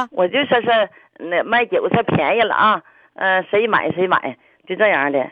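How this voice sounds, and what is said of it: Accent like Ni Ping's. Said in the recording (Chinese): “两句就能听出来倪萍口音”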